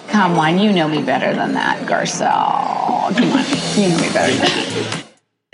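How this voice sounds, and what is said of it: Heavy vocal fry. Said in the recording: “that vocal fry ... I've never heard that sound come out of her mouth before. It was like a totally different voice.”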